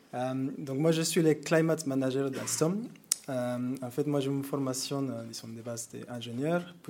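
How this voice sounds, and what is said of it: Mexican accent speaking French. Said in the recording (French): “moi je viens du Mexique. Donc vous m'excusez avec l'accent”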